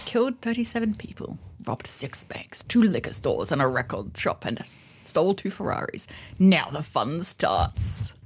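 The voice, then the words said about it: Movie trailer narrator voice. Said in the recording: “trailer voice”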